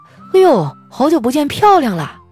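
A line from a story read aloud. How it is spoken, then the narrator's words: Casual friendly greeting. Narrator (Chinese): 有个男生寒暄了一下，说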